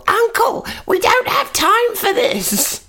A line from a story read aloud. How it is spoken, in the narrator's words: I screeched down the corridor